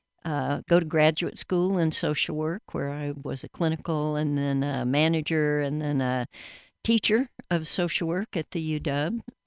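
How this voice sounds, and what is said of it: Atlanta Southern accent. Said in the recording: “You'll hear my Atlanta accent”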